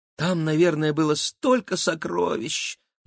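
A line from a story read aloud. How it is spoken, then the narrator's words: Sighing. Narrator (Russian): вздохнула Кира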